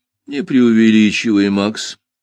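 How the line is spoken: Dry reply. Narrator (Russian): сухо отозвался Джуффин

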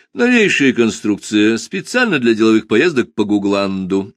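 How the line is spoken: Cheerful. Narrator (Russian): весело объяснил я

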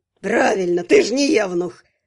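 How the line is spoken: Approving snort. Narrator (Russian): одобрительно хмыкнул третий голос

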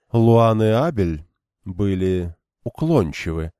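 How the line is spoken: Continued, plain. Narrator (Russian): продолжила Дайлин

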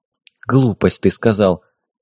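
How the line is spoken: Near whisper. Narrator (Russian): Почти прошептала Дарья

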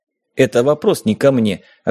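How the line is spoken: Snapping retort. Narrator (Russian): огрызнулся

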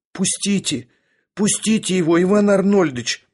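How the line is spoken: Two women pleading together. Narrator (Russian): взмолились одновременно обе женщины

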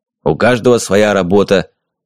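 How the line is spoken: Continued grumbling. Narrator (Russian): продолжал бурчать Флосси

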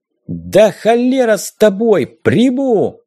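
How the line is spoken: Yelling. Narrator (Russian): я заорал

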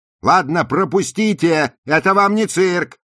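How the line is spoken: Shout over pressing crowd. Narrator (Russian): крикнула Розали, когда толпа обступила их и начала напирать

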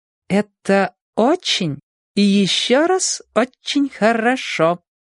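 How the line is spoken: Slow drawl, female guest. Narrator (Russian): медленно протянула гостья

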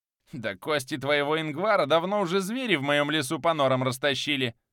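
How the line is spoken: Witch's cackling laughter. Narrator (Russian): захохотала ведьма

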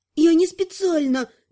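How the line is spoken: Squeaked. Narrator (Russian): пискнула Наташа

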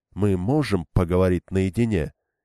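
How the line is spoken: Quiet request. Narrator (Russian): тихо попросила она

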